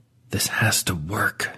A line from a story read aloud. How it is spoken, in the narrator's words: Dewey says, the words coming out in a barely audible hiss